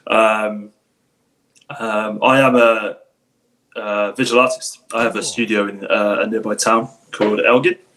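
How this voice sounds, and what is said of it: English accent. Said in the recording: “I'm detecting... the English accent”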